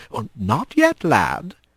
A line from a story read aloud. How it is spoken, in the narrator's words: he whispered